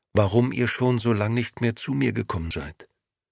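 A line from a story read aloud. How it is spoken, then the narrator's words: Quiet answer. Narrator (German): antwortete Momo leise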